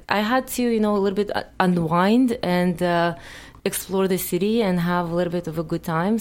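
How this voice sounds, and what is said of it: Non-native English accent. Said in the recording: “I still have an accent,”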